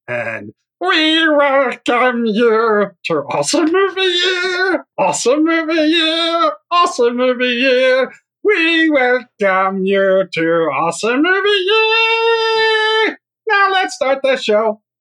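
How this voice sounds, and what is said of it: Sings in a Gollum-like munchkin voice. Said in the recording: “singing in what sounds like an impression of Gollum from The Lord of the Rings ... your Munchkin impression ... it mostly sounds like Gollum ... singing like a munchkin”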